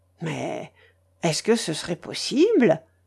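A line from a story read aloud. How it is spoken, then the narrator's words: Bewildered murmur. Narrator (French): murmurait-il avec une sorte d'égarement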